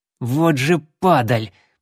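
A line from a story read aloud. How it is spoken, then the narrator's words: Through gritted teeth. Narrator (Russian): процедил сквозь желтые зубы Конрад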